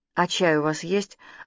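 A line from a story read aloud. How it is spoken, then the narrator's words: Timid request. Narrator (Russian): робко попросила она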